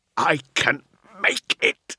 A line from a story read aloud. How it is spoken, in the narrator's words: Navarre snarled